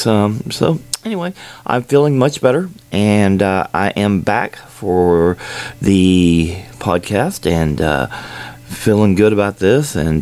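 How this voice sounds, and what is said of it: Slightly different, congested-sounding voice. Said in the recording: “Having a little bit of a sinus infection apparently now, as you may have noticed, my voice is a little different.”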